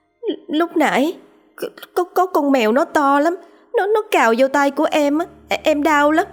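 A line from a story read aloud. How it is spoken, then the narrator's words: Frightened trembling voice. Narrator (Vietnamese): Cô Xuân toàn thân rung lên cầm cập, giọng run run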